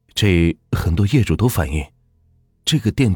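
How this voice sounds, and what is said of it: Usual voice. Nothing is said of it.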